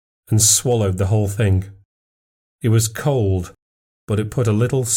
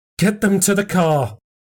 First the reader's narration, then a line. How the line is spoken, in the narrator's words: cried Katya